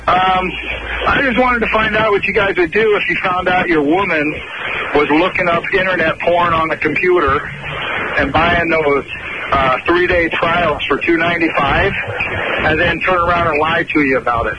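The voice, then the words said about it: English accent. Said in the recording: “You're English, though. ... It does explain the accent.”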